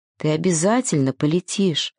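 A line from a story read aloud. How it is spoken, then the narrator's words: Whisper. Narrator (Russian): прошептал Сережик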